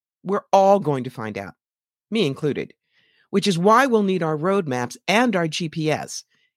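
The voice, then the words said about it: New York accent. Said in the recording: “Excuse the New York accent. It's part of the package with me.”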